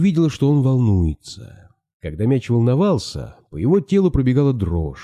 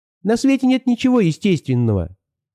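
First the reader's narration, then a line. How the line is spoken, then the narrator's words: Shrill ball voice. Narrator (Russian): ответил пронзительным голосом мяч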